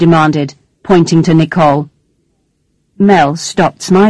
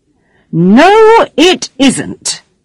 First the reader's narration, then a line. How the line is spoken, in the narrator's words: shouted the woman angrily